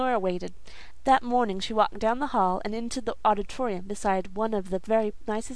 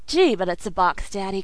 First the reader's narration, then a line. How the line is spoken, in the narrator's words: cried the laughing girl